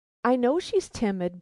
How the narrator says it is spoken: broke in the good woman eagerly

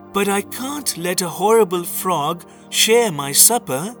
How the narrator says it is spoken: She cried

